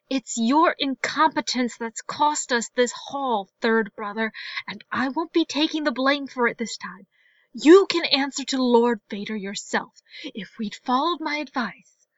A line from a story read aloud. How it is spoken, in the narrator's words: a growl of frustration, much closer than before, and then a woman's voice hissed